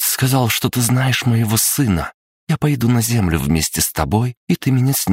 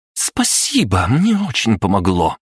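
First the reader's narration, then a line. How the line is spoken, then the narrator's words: Sarcastic snort. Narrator (Russian): язвительно фыркнула принцесса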